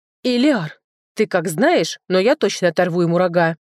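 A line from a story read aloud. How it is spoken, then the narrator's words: Exclaiming. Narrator (Russian): воскликнула она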